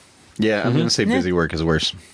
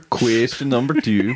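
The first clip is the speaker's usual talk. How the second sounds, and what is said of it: Bad put-on Danish accent. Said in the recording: “This is my bad Danish accent”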